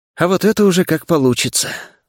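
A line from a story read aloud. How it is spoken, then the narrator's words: Muttered. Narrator (Russian): буркнул я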